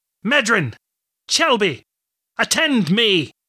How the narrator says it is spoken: shouted across the distance

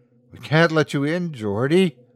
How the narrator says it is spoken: Leroy chuckled reproachfully

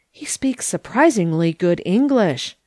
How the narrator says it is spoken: murmured several of the audience

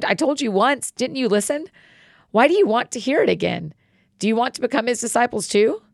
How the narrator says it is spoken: the man exclaimed

